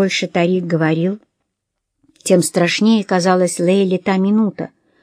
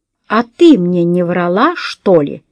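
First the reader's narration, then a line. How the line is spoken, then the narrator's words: Enraged roar. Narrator (Russian): взревел Рашид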